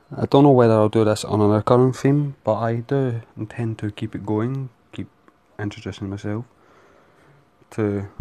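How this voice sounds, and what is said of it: Scottish accent. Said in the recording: “I'm from Scotland. ... I am from Scotland. So my accent and some of the phrases I say will sound weird.”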